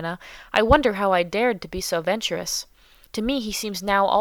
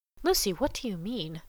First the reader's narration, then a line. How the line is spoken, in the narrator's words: said under her breath